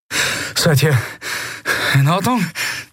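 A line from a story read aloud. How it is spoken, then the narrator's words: Breathless panting. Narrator (German): keuchte Kai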